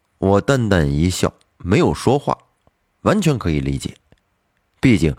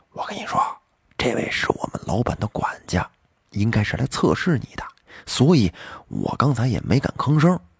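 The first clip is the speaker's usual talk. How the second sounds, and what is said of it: Whispering close to the ear. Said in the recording (Chinese): “凑到我耳边小声的说了句”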